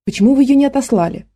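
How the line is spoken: Irritated. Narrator (Russian): раздраженно произнес я

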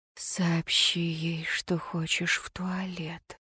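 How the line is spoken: Whispered hint. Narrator (Russian): шепнула подсказку

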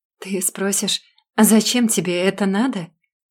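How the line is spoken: Sudden quiet laugh. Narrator (Russian): Тихо засмеялся вдруг мастер ядов

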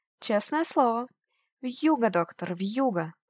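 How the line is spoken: Joyful, through a keyhole. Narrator (Russian): повторила она радостно в замочную скважину

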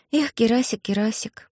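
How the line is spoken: Sighing. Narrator (Russian): вздохнула Алиса

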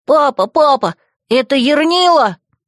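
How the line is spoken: Wailing. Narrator (Russian): вопило существо

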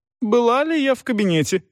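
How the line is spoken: Excited exclamation. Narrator (Russian): возбужденно воскликнула миссис Марклхэм

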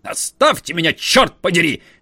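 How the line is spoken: Cornered yelling. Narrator (Russian): вопил Ка, уже притиснутый к своему платяному шкафу

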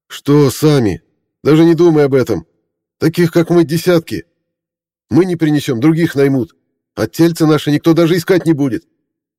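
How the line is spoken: Shouting. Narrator (Russian): крикнул Дима

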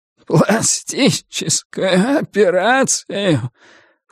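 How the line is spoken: Strained bitter laughter. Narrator (Russian): Хуан Шаопин натужно выдавил из себя несколько горьких смешков

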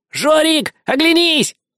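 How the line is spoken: Cheerful shout, little mouse. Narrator (Russian): весело крикнул мышонок

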